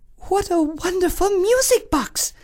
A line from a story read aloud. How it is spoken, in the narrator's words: exclaimed the princess